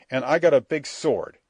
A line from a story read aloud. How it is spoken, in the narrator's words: I cried out angrily